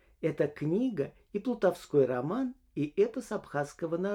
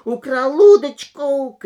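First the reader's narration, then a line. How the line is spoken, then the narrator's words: Furious shouting. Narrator (Russian): кричал дядя в ярости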